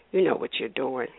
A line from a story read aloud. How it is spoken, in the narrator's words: said breathlessly